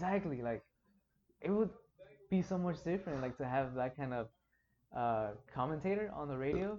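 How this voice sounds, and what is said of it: Usual voice. Nothing is said of it.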